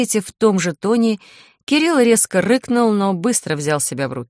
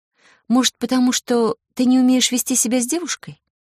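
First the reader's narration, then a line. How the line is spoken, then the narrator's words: Quiet question. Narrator (Russian): демон тихо поинтересовался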